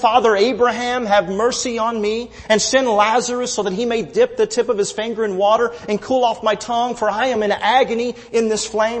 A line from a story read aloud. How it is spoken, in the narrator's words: he cried out and said